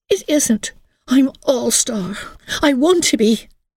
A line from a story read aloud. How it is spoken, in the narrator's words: cried Emily